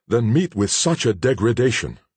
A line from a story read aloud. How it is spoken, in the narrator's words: exclaimed the horror-struck Cora